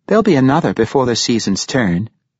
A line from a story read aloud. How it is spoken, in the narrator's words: Serena called out to him, when she noted his disappointment